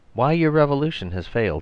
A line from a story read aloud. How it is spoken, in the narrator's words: he said